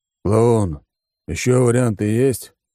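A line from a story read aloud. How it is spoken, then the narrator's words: Tired question. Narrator (Russian): устало спросил Алекс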